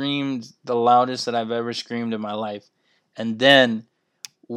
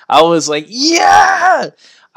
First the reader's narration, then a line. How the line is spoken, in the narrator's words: I screamed so loud